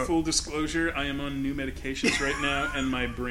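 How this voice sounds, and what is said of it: Usual voice. Nothing is said of it.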